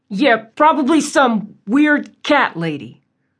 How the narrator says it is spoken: chuckled

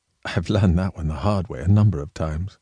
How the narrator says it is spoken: He laughed softly and said

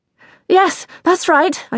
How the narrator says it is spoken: gasped, struggling to keep up with him

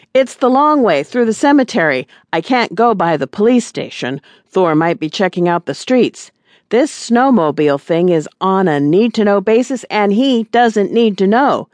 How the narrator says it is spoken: Granny yelled through the wind

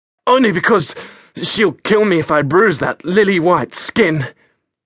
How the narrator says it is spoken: Froi mocked through gasps

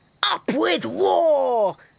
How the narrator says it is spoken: they shouted

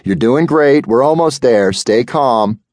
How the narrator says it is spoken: hollered

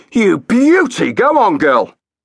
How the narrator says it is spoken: the doctor shouted

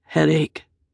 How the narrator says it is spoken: he said wearily

